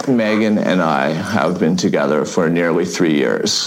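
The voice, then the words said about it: Man speaking with extreme vocal fry. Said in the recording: “This is the most vocal fry I've ever heard in a man”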